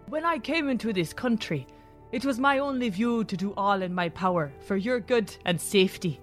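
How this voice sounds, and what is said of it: Mixed British-Isles accent, put on. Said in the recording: “with an English, Scots, or even Irish lilt ... What accent is this? ... I'm literally trying to put them all together into one.”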